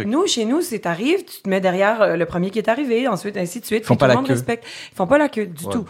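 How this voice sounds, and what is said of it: Québécois French accent. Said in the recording (French): “t'as un accent québécois”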